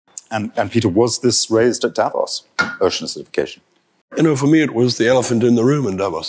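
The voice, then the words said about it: Hoarse voice from a cold. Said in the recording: “apologize for my voice. ... I came back from Davos uh, with a, a, very bad cold.”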